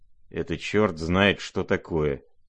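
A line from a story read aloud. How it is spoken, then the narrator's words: Low grumble. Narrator (Russian): проворчал в полголоса Иван Федорович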